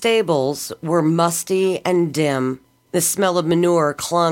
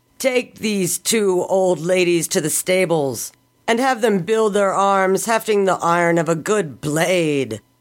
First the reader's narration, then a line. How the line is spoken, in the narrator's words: McGart said, roaring with laughter